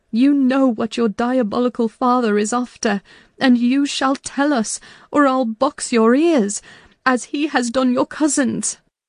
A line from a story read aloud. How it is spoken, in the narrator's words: cried